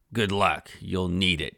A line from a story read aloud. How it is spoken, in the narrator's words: growled